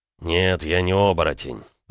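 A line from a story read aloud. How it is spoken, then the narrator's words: Through gritted teeth. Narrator (Russian): процедил Макеев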